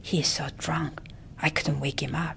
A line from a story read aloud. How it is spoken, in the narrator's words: Auntie Manga whispered